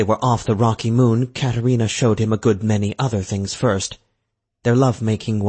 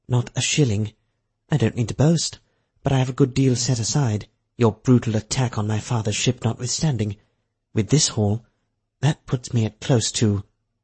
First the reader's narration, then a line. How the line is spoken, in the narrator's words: she lowered her voice